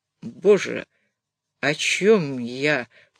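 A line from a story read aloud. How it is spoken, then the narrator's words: Muttered. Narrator (Russian): пробормотал Разовский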